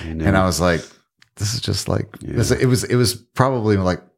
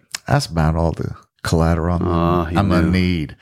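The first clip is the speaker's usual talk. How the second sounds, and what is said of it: Imitated Southern American accent. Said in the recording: “in his Southern accent”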